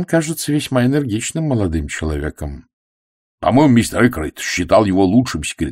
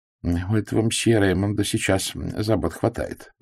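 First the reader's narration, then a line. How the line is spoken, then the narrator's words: Mutter. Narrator (Russian): пробормотал Пуаро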